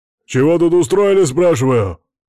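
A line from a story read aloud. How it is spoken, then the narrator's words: Loud barked shout. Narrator (Russian): снова гаркнул какой-то засранец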